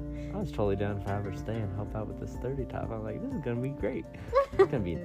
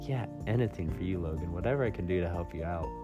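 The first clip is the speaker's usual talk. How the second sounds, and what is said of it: Sarcastic quoted line. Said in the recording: “are you being sarcastic? She's like, yes.”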